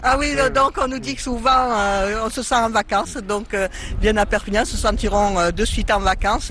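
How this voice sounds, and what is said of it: Catalan regional French accent. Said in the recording (French): “les Catalans sont chaleureux ... votre accent nous transporte”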